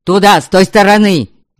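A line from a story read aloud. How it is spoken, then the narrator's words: Full-throated yell. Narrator (Russian): Во все горло заорал Сиряня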